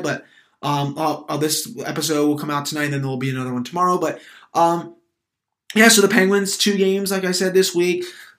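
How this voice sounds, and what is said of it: Stuffy, congested nasal voice. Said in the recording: “I've also been coming down with a little bit of a cold. First it was my throat, but then that went away. And then, of course, it spread to my nose. So now it's just my nose that's been really stuffy. So if my voice sounds different, that's why.”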